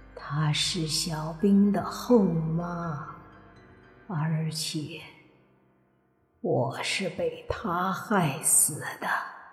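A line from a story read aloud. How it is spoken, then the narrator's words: Old woman sighing. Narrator (Chinese): 那个老太太叹了口气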